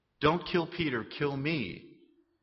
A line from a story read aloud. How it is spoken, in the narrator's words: she said